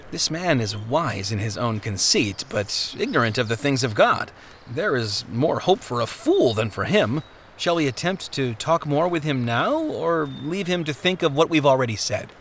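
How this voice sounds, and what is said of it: Low, quiet voice. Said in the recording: “In a low voice”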